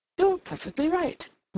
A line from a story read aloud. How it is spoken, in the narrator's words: Rodney exclaimed